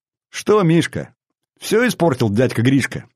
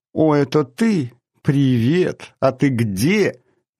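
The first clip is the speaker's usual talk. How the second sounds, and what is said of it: Mocking mimicry of Marina's voice. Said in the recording (Russian): “передразнил он Марину”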